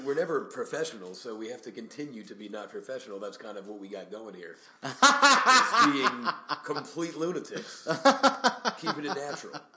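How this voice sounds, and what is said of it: Put-on radio announcer voice. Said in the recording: “Why do you have a radio voice? It's much different than your normal voice.”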